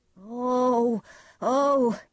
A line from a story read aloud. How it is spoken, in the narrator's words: he cried